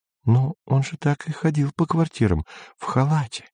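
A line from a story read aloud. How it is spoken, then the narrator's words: Whisper. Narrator (Russian): шептала Сельма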